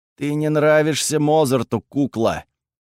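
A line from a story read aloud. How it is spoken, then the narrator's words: Hissed through teeth, fighting. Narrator (Russian): процедил, отражая очередной удар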